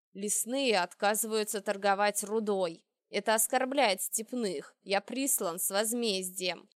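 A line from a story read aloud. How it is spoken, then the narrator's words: Growl. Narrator (Russian): Ракард прорычал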